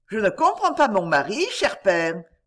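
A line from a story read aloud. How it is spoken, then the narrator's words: Laughing. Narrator (French): dit-elle en riant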